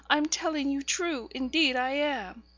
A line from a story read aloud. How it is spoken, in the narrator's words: sobbed out my child